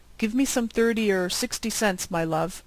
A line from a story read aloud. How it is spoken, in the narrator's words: said the major